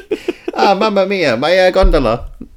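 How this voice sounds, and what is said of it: Bad put-on Italian accent. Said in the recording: “That's the worst Italian accent of all time.”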